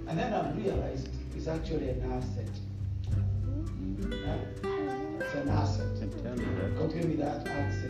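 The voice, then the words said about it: Kenyan-accented English. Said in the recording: “you've never lost your accent ... You sound like a Kenyan”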